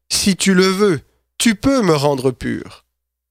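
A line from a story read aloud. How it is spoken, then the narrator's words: Pleading. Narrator (French): il lui dit d'un ton suppliant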